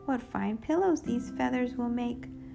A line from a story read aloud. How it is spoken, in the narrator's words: cried Lena, Sina, and Trina